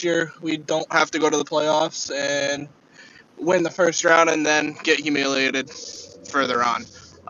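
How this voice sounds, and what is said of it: Northeastern American accent. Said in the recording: “Northeastern accent ... have you ever heard a Saints fan with a fucking Northeastern accent?”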